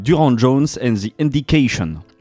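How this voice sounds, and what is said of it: Exaggerated English-style accent on a name. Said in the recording (French): “J'ai fait mon meilleur accent”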